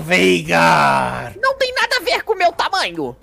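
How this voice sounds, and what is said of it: Imitated game character voice. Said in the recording (Portuguese): “imitação maravilhosa”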